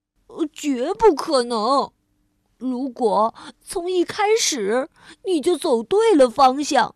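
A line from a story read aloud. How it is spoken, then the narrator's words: Worried sigh. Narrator (Chinese): 蜗牛又叹了一口气，并十分担心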